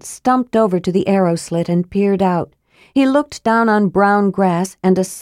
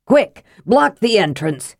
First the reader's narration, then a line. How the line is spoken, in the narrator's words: he bellowed